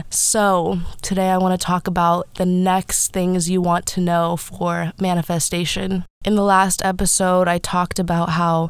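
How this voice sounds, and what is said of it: Voice sounds a little weird, congested. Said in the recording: “I sound a little weird. ... I do have pretty bad allergies right now.”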